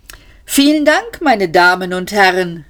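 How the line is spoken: Called out. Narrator (German): rief der Mann

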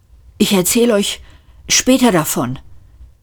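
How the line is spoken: Panting. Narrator (German): keuchte Seyfert

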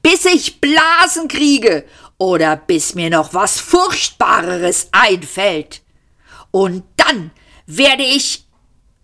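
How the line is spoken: Shouting. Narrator (German): schrie Arthur

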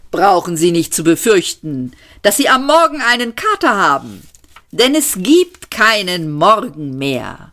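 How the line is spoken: Cheerful call. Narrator (German): rief er fröhlich

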